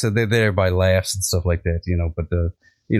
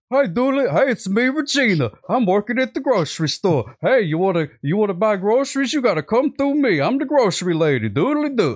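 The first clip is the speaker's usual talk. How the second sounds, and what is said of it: Imitates another person's voice. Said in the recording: “here's my impression of Regina ... sounds just like her”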